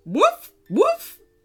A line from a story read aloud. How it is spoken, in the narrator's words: barked Floof